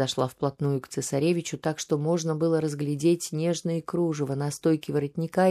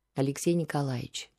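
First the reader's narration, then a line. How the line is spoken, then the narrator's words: Tender soothing voice. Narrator (Russian): начала она таким нежным голосом, каким успокаивала его перед сном всего несколько лет назад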